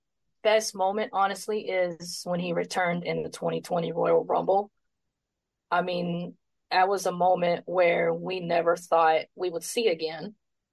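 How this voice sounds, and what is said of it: Stuffed-up congested voice. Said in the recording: “apologize for my voice. ... Sinuses, allergies, I don't know. It just really stuffed up. So my voice might be going crazy”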